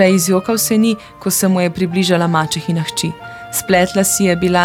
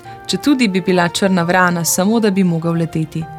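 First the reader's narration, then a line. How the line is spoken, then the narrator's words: Sighing. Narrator (Slovenian): je vzdihnil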